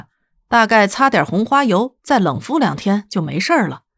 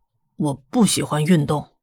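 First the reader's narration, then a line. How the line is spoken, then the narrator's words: Dejected mumble. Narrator (Chinese): 瑞德耷拉着脑袋，过了一会儿咕哝道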